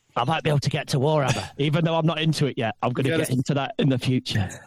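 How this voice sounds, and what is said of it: Nottingham English accent. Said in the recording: “this guy sounds like he's from Nottingham ... he's got the accent. Listen, Ed, the accent sells. We need this guy for the accent.”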